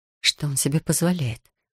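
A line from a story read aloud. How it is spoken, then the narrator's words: Indignant whisper. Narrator (Russian): шепотом возмутилась мама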